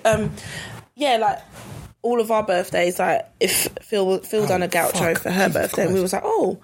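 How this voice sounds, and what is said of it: Slightly hoarse, failing voice. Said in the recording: “my voice is going slightly”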